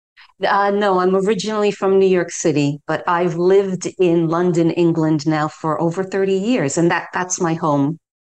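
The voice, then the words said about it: New York American accent. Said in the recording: “this is where we love the accent. You know, you can never uh-huh. lose this accent.”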